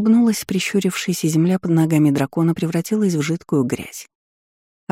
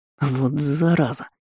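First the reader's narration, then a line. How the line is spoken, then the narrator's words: Hissing. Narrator (Russian): прошипел Лунар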